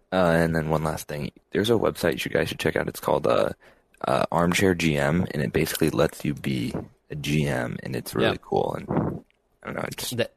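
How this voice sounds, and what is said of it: Rich radio-announcer style voice. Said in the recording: “I think ... was maybe in his dorm room there, not trying to wake up his roommate. I couldn't tell. They're loving his radio voice. Great good pipes. ... this guy just does great pipes.”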